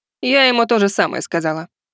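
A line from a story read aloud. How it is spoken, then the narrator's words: Wry snort. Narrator (Russian): хмыкнула Сонг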